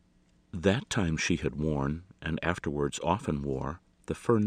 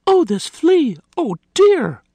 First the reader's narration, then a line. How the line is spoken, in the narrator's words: Martha had cried